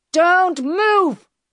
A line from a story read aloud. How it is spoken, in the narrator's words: he shouted